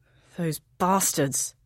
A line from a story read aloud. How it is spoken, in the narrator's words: her husband's voice grumbles